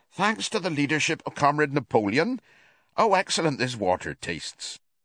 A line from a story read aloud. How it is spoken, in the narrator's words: two cows, enjoying a drink at the pool, would exclaim